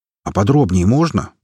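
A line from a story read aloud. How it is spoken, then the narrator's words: Grumbled. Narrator (Russian): проворчал мой друг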